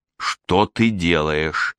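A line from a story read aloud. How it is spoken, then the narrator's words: Through clenched teeth. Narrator (Russian): процедила Вилли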